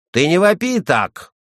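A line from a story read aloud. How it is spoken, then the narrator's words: Threatening indignant shout. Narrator (Russian): угрожающе крикнул Партенен, душа которого кипела от негодования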